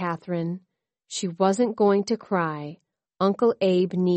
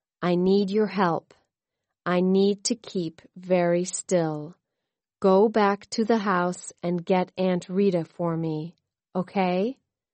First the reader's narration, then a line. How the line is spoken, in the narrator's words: Uncle Abe said slowly